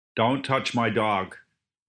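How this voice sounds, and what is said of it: Unconvincing attempt at American accent. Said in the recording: “Can you do an American accent? ... So no, then.”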